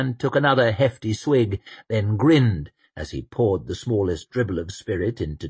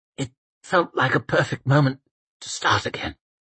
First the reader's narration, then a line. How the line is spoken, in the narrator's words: croaked Temple